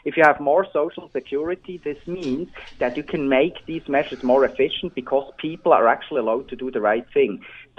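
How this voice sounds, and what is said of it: Swiss accent in English. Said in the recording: “as you can hear from my accent, I'm originally from Switzerland.”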